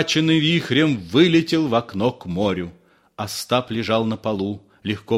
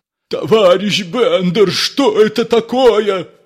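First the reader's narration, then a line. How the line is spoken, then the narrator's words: Terrified shouting. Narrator (Russian): кричал Ипполит Матвеевич в ужасе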